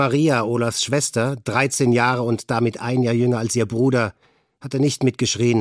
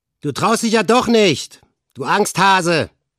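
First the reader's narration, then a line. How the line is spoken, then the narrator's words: Leader calling out. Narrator (German): rief Olaf, ihr Anführer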